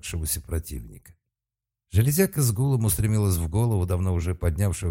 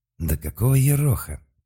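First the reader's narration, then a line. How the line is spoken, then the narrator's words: Enraged groan. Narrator (Russian): простонал разъяренным происходящими странностями Малк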